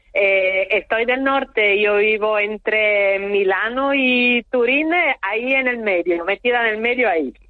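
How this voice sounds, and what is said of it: Italian accent speaking Spanish. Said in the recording (Spanish): “Con ese acento, usted no es precisamente de Antigua o de Betancuria ... un poquito más arriba de Italia.”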